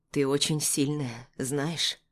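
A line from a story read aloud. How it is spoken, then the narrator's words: Quiet. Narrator (Russian): произносит он негромко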